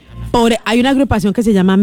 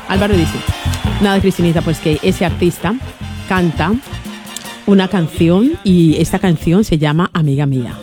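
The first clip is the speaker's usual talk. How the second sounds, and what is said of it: Put-on Spanish (Spain) accent. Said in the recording (Spanish): “acento españolete ... Españolete, listo”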